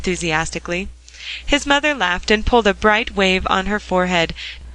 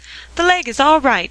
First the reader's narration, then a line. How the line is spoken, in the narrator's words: cried Dick